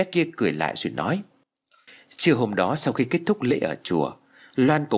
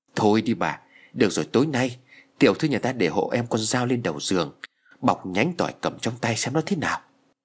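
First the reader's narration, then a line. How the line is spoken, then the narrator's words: Trembling reply. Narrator (Vietnamese): Hà run rẩy đáp lại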